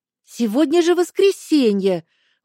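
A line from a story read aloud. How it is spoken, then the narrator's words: Indignant exclamation. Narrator (Russian): Возмущенно воскликнула она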